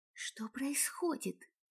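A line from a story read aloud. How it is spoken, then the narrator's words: Soundless mouthed whisper. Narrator (Russian): прошептала Донни одними губами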